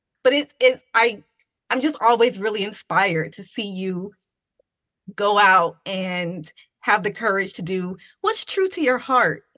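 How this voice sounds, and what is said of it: Emotional, moved voice. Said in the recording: “Now I'm getting emotional.”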